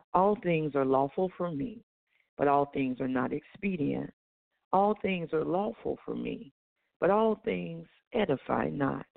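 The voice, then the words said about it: Hoarse voice. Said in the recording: “excuse my voice, it's a little hoarse, I've been sick.”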